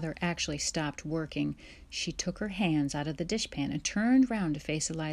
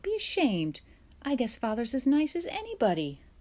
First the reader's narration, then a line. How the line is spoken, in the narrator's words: Alice cried